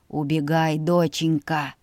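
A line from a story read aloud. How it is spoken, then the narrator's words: Hoarse hiss. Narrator (Russian): Хрипло прошипел дядя Сет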